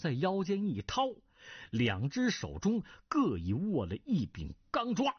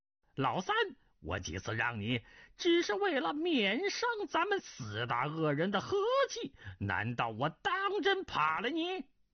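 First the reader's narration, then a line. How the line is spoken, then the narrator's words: Sinister laugh. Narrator (Chinese): 云中鹤狞笑道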